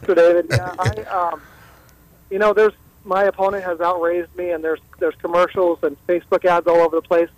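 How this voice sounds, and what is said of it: Hoarse, worn-out voice. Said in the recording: “as much as you hear my voice. My voice is shot.”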